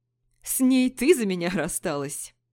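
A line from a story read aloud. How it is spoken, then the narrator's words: Laughing. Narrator (Russian): рассмеялся Пижон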